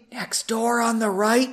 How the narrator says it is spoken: she asked quietly

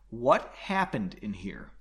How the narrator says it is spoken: Slowly and clearly, she asked

